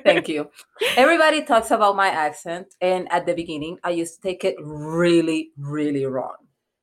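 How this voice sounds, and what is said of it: Thick Afro-Latina accent. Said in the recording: “a thick accent”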